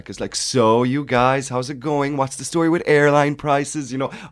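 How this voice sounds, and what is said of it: Put-on American accent. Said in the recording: “by the end of the week, I was nearly talking like an American.”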